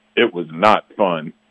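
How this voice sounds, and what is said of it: Dramatic narrator voice. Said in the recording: “narrator voice,”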